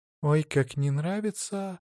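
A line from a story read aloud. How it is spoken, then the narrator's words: Whisper. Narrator (Russian): прошептала Злата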